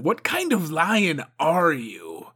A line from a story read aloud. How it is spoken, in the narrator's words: She snarled